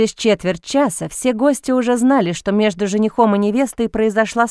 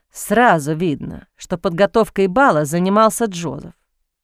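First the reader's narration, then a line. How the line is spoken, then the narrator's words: Displeased grumbling. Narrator (Russian): недовольно пробурчал Бастиан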